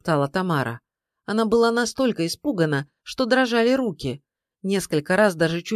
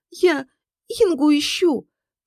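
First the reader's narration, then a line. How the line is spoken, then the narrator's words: Sobbing. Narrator (Russian): Тамара всхлипывала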